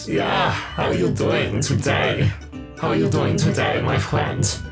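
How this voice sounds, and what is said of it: Bad put-on German accent, sensual. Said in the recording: “Bad German as your voice quality... sensual... a bad German accent?”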